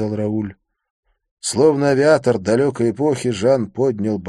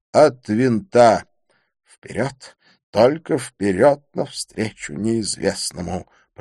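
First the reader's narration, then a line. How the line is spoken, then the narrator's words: Whisper. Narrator (Russian): прошептал Рауль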